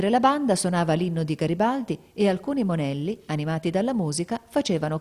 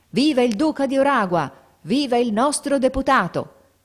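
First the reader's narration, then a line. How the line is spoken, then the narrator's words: Crowd shouting. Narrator (Italian): La folla gridava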